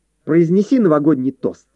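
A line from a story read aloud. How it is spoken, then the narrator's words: Joyful. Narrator (Russian): радостно сказала она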